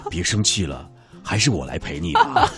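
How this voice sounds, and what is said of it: Put-on mature male voice. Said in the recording (Chinese): “成熟男性的这种胸怀哈...成熟的声音说”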